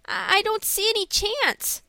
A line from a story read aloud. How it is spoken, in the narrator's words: said Frank, looking anxiously